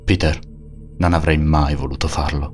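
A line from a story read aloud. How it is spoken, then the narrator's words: Flat voice. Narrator (Italian): disse con voce piatta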